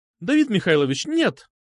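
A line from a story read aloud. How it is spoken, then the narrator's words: Exclamation. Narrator (Russian): воскликнула она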